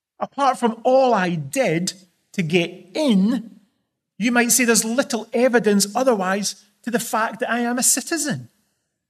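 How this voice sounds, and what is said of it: Scottish accent. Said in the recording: “I still speak with this fantastic Scottish accent.”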